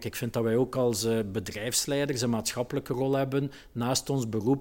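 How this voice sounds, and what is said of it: Ghent Flemish regional accent. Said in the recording (Dutch): “Je hoort aan mijn accent, ik ben hier geboren”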